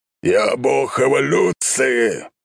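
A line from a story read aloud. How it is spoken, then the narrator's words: Old man roaring. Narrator (Russian): взревел бородатый дед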